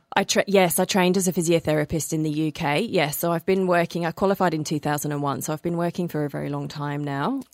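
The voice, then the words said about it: Blended English accent. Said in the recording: “The accent is from the UK, although I'm told that it's pretty hybrid now. I think it's a bit of a blend, but yes, there is still a little bit of an English twang in there somewhere.”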